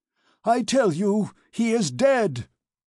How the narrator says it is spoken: he cried, hoarse with rage and despair

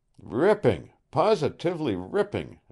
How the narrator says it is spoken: exclaimed Mercer

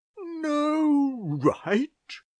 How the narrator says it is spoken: exclaimed Dr

